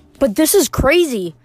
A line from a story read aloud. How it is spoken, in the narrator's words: Annabeth cried